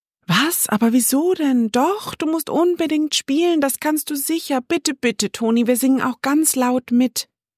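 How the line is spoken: Excited overlapping chatter. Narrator (German): schnatterten alle am Tisch aufgeregt durcheinander

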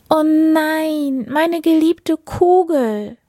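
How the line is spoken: Princess crying out. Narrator (German): rief die Prinzessin

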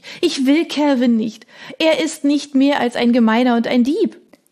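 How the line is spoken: Sobbing, king. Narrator (German): schluchzte der König

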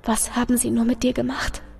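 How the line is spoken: Tender whisper. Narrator (German): flüsterte ins Ohr

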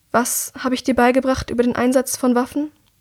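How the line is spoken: Calm question. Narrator (German): fragt sie ruhig

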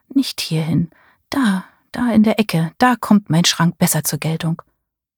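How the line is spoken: Murmured. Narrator (German): murmelte

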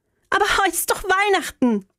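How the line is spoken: Calling after. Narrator (German): rief ich ihm nach

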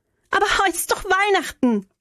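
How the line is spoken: Calling after someone. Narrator (German): rief ich ihm nach

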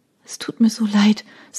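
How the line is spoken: Sobbing quietly. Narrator (German): sagte sie und schluchzte leise

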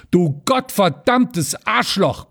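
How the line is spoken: Bellowing again. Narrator (German): brüllte Rüschenberg wieder los

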